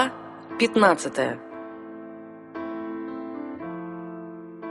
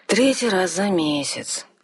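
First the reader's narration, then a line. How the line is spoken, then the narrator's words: Glum explanation. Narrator (Russian): уныло пояснил нам бригадир королевских строителей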